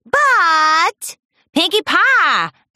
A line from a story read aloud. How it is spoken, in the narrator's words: Applejack shouted